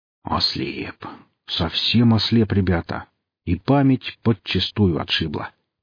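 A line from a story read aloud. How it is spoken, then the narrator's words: Grumbling. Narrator (Russian): буркнул он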